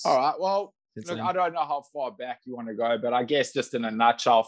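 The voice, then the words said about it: South African accent. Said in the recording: “hopefully everyone picks up the accent that you were born in South Africa.”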